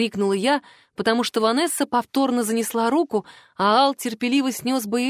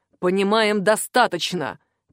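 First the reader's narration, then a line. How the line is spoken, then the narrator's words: Growled. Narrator (Russian): прорычал папа, впервые подав голос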